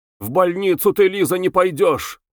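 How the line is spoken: Shouting. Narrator (Russian): кричал доктор

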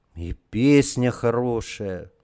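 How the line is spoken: Sigh. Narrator (Russian): вздохнул Борька

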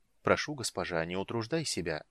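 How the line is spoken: Soft. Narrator (Russian): мягко произнес Рейслин

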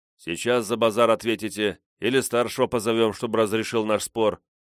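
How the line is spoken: Plain. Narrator (Russian): спросил я

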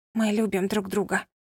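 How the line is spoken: Whisper. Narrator (Russian): прошептала

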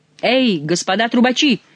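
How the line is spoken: Shouted call. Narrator (Russian): крикнул он герольдам

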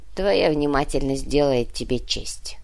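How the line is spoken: Priestess grumbling. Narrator (Russian): проворчала жрица

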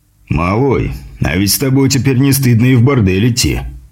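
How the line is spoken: Guffawing. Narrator (Russian): хохотнул Груздев

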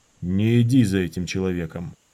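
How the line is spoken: Creaky voice. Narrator (Russian): Дорин проскрипел

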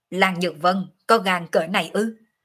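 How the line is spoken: Crowd's shocked angry scolding. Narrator (Vietnamese): hơn 30 người cùng nhau há mồm khiếp sợ, tức giận mắng

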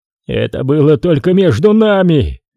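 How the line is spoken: Uncontrolled roar. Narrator (Russian): проревел он, не осознавая своих слов

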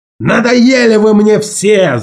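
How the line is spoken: Shouting. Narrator (Russian): закричал он

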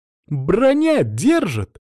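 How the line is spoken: Joyful, disbelieving exclamation. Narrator (Russian): Радостно, как будто сама в это не верила, воскликнула ассистентка

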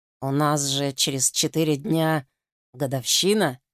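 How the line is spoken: Muttering. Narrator (Russian): бормочет

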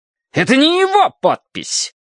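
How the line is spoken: Indignant shout. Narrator (Russian): возмущенно выкрикнул

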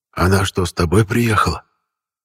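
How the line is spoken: Whispered question. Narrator (Russian): шепотом спросил Рашидов

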